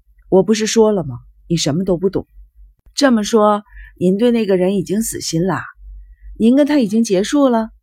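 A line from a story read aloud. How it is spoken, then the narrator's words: Deep sigh. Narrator (Chinese): 生一郎深深地叹了一口气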